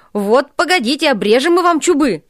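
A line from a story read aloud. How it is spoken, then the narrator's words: Shouted from above. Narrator (Russian): кричали им сверху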